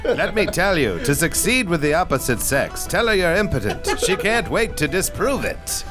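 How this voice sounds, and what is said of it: Transatlantic-accent old Hollywood star impression. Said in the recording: “That's a real Cary Grant. ... You sound like you're British, but you don't mean it. ... Well, it's transatlantic.”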